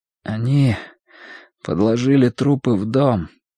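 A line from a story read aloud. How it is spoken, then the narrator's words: Slightly trembling voice. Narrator (Russian): сказал Мэтью слегка дрогнувшим голосом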